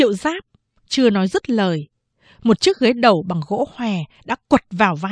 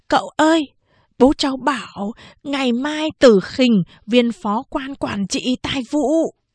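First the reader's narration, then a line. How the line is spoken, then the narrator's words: Softly spoken. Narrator (Vietnamese): Tư Mã Lương lại nói khẽ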